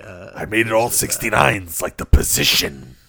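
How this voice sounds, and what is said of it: Imitates another person's voice. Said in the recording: “my Rich Rosen impression. Dave's dad. ... Sounds a little like Alex Jones. ... I think I got a little frog in my throat”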